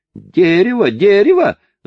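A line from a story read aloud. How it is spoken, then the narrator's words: Frenchman screaming. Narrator (Russian): завопил француз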